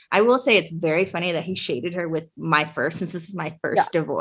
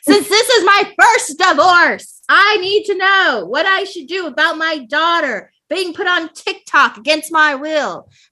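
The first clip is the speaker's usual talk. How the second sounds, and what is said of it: Yelling, reading in a loud voice. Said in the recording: “I'm yelling because it's all in caps.”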